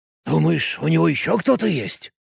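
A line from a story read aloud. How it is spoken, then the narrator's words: Frightened exclamation. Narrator (Russian): испуганно воскликнул староста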